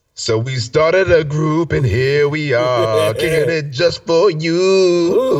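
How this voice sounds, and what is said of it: Partly lost, strained singing voice. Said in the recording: “My voice is a little gone, so I know I wasn't harmonic there”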